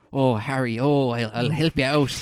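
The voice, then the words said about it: Bad imitation Irish accent. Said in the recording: “It's like the worst Irish accent”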